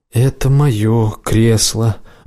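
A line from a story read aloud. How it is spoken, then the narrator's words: Level, even reply. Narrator (Russian): ровным голосом ответил Келл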